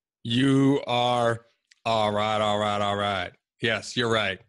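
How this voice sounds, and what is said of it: Imitates another person's voice. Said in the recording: “that was my Matthew McConaughey impression.”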